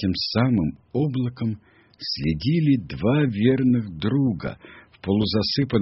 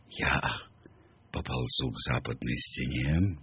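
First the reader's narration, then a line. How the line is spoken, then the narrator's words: Whispering. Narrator (Russian): шепнул Каа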